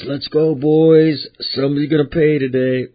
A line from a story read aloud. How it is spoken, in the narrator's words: he yells